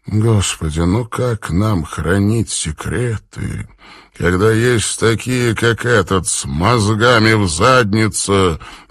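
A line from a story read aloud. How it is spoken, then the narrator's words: Weary question. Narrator (Russian): устало задавался вопросом Роузмонд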